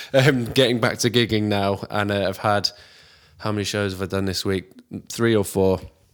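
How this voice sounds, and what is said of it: Tired-sounding voice. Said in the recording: “my voice sounds a little bit tired ... feeling a bit knackered”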